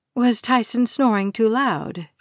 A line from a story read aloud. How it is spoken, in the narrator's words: she asks